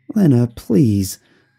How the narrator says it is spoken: I said, still panting from the journey up

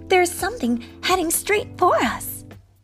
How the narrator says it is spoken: she cried

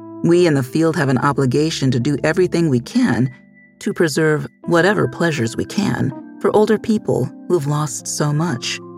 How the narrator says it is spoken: Reingold says

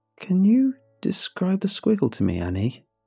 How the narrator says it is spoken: said

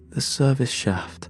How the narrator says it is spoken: said

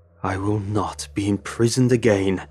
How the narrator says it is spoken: Lemon Belly snarled

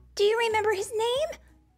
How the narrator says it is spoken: Luann asked excitedly

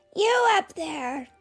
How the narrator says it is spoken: shouted Pezzettino

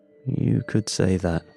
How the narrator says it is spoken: I muttered

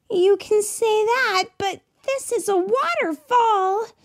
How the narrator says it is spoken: she shouted

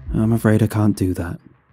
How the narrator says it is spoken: I sighed

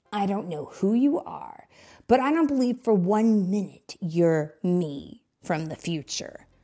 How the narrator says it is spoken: Sonic said with a snarl

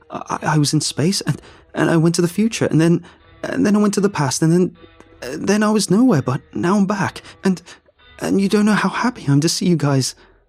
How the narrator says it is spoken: I blurted

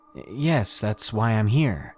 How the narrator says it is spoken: he nervously said

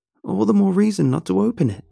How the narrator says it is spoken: Kim cried

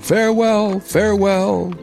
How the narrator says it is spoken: cried the prince and princess

